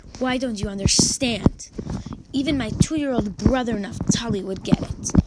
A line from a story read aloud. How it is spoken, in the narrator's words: Ephraim angrily